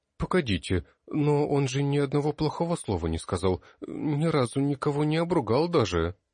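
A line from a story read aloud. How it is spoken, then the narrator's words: Uncertain tone. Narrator (Russian): неуверенно произнесла Альтина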